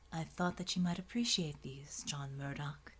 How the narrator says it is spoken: the angel murmured quietly

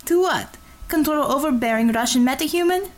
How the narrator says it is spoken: snorted a laugh

